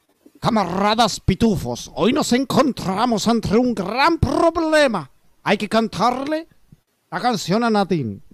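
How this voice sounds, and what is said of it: Put-on Russian accent. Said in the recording (Spanish): “la voz de ruso como que la tengo que trabajar un rato antes”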